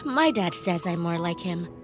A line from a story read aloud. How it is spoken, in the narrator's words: confused and mumbled